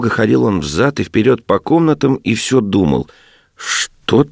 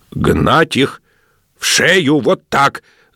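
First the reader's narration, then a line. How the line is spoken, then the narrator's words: Frantic distorted shout. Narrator (Russian): закричал он не своим голосом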